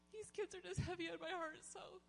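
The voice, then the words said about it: Choked-up, emotional voice. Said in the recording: “I'm going to get choked up. ... You can get choked up here.”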